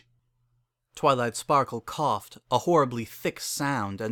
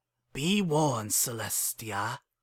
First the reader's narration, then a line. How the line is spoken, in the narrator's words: he growled